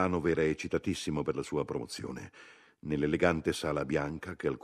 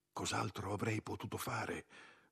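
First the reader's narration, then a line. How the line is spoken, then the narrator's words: Whispered. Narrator (Italian): sussurrò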